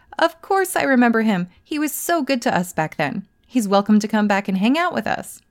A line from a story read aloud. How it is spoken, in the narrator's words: they let out a hearty laugh and said